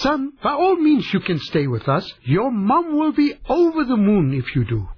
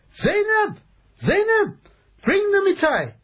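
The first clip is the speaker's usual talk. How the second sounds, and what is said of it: Shouting loudly. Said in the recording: “Why are you shouting?”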